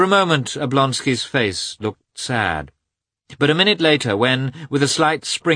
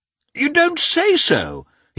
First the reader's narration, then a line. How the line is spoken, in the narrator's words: he exclaimed, when the princess told him that Vronsky was going by that train